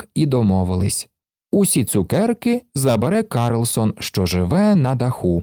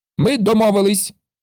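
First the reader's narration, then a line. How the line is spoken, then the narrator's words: Shouted. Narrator (Ukrainian): закричав Карлсон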